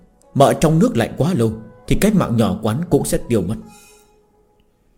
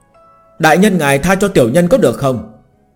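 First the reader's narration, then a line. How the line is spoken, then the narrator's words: Exasperated crying out. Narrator (Vietnamese): Ngưu Hữu Đạo hơi cạn lời, lại kêu lên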